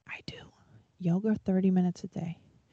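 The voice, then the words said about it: Whispering. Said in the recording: “I'm gonna whisper this.”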